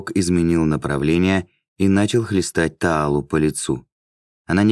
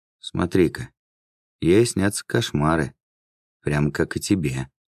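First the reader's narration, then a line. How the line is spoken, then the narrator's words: Sympathetic. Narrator (Russian): сочувственным тоном прокомментировала Мирна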